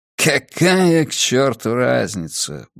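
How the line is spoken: Muttering again. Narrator (Russian): бормочет он снова

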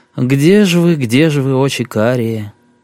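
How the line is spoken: Gruff mutter. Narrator (Russian): Сергей буркнул

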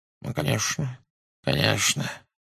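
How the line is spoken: Muttering. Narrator (Russian): бормотал он

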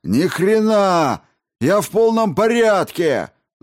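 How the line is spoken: Yelling. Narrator (Russian): заорал он

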